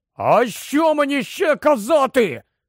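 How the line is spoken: Sudden shout. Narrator (Ukrainian): раптом крикнув Рон

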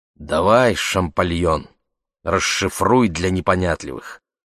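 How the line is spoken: Grumbling mutter. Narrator (Russian): буркнула

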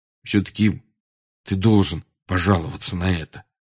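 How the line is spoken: Quiet. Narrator (Russian): тихо сказал Рон

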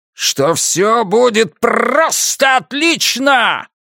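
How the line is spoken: Sudden very loud yell. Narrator (Russian): Ники проорал это так громко и так неожиданно

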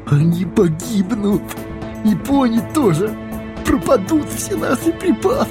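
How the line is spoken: Groaning dwarves. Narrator (Russian): Застонали гномы

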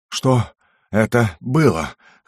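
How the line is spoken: Gasping, wheezing. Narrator (Russian): хватая ртом воздух, просипел я

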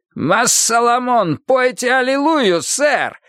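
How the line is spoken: Shouting. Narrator (Russian): закричал мама Лоу

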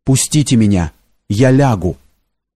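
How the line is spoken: Quietly repeated. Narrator (Russian): Лось несколько раз повторял тихим голосом

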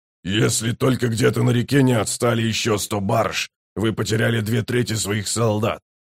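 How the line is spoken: Grumbling. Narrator (Russian): проворчал Брут

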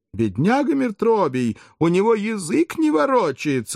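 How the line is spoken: Exclaimed. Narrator (Russian): воскликнул другой

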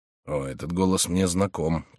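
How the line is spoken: Muttering. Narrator (Russian): пробормотал он

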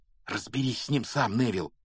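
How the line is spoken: Whisper. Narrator (Russian): шепнул он

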